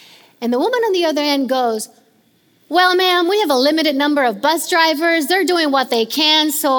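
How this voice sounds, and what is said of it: Usual voice. Nothing is said of it.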